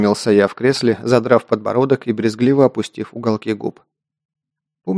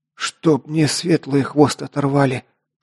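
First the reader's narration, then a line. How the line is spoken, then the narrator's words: Loud exhale. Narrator (Russian): шумно выдохнул Лок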